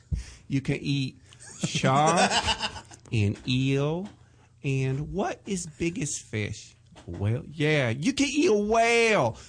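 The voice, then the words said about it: Imitated accent of another person. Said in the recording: “do the voice for Michael ... You should never touch that accent ... Again.”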